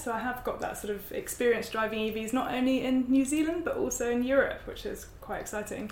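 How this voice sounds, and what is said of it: British accent. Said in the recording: “you can tell from my accent, I'm from the UK.”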